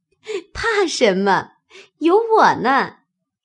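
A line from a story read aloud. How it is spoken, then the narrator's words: Laughing. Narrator (Chinese): 方官笑道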